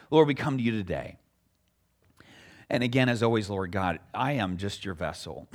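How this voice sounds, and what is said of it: Weak, struggling voice. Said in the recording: “my voice is, I'm having problems. I'm struggling this morning. I just pray that you would just make it strong, that people might hear”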